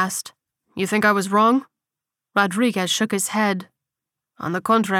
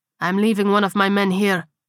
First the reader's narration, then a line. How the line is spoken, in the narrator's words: he said coldly